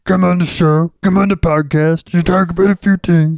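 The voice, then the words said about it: Poor, Kermit-like imitation of another person. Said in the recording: “I could do my Dikembe Mutombo ... Okay, that's terrible. ... That kind of sounded like Kermit the Frog. ... That is like Kermit.”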